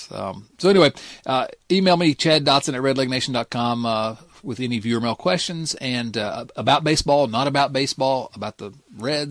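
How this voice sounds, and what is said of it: Dulcet regional accent. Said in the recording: “accent ... Everybody loves this accent ... it's dulcet”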